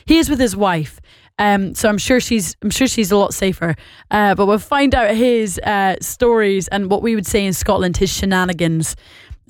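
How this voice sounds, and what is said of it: Scottish and Northern Irish accent. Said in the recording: “if you can't understand my accent, I do apologise. I'm both Scottish and Northern Irish. ... this accent is causing you a little bit of confusion”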